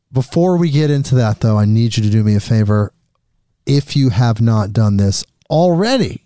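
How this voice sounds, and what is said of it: Usual voice. Nothing is said of it.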